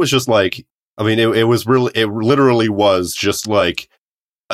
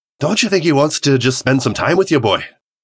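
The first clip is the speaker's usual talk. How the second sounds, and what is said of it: Poor imitation of a game character. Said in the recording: “Terrible Mimir impression.”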